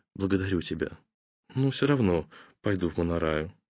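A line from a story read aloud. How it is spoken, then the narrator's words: Quiet, touched remark. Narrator (Russian): Тронутая таким вниманием, она обронила тихо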